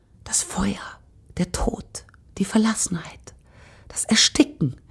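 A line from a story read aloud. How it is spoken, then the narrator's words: Breathy whisper. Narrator (German): hauchte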